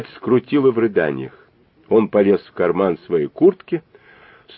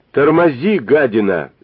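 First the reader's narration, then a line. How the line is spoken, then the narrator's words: Shout. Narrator (Russian): закричал он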